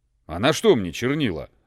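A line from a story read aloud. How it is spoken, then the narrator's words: Grumbling. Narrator (Russian): ворчал неудачник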